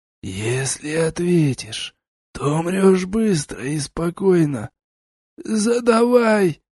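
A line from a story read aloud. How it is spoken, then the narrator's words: Hoarse rasp, mage. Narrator (Russian): прохрипел маг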